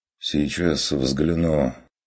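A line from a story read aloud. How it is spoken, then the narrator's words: Sighing. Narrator (Russian): вздохнул трактирщик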